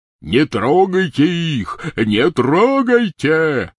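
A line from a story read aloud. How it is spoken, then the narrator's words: Shout. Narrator (Russian): кричал он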